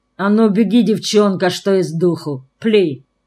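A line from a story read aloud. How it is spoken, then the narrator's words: Gloomy. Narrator (Russian): Мрачно выговорил Мору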